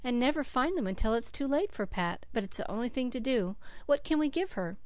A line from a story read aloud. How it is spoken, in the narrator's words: sighed Cecily